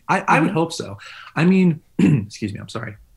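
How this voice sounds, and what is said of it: Choked-up, emotional voice. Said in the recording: “I'm getting all choked up.”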